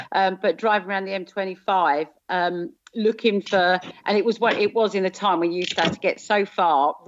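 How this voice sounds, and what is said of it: Southern accent. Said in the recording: “guess from my accent, I'm originally from South.”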